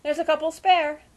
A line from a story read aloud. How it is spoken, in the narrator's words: exclaimed Uncle Parker